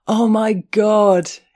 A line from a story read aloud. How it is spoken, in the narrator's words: he howled